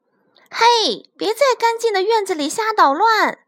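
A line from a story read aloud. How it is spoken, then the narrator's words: Loud shout. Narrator (Chinese): 弗瑞德大叫一声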